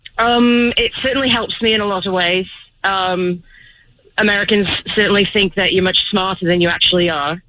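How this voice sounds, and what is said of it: English accent. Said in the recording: “So you're from England?... Does the accent hurt you or help you?... That sounds intelligent.”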